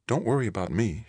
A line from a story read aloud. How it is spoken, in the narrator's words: she said softly